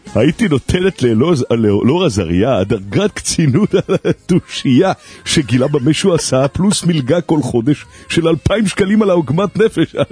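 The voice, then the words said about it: Imitates another person's voice. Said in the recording (Hebrew): “תקראת את ההודעה של עדנה בקול של וליס. ... חזק, גם החיקוי”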